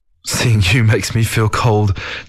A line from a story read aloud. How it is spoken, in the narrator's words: Zhou Luo chuckled